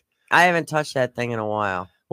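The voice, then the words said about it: Flat, monotone delivery. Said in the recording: “You're like all monotone and stuff.”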